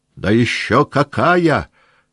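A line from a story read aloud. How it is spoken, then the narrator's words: Shouting. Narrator (Russian): прокричал Денисов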